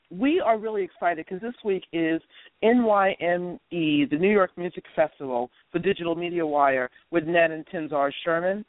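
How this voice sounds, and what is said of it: Hoarse, congested, low-pitched voice. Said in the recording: “excuse my voice. I have a very bad cold. I might even sound like a guy today.”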